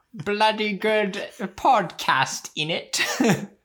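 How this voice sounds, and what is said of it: Bad put-on British accent. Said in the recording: “we developed this absolutely horrid British accent that sounds like we're essentially mocking Harry Potter ... we're mocking British people”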